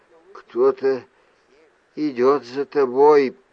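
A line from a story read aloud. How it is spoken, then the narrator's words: Barely audible. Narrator (Russian): промолвила она едва слышно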